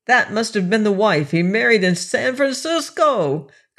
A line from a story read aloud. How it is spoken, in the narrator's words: cried he